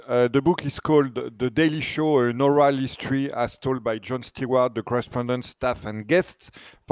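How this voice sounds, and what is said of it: French accent. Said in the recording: “Probably you've never heard that title being said by a French accent.”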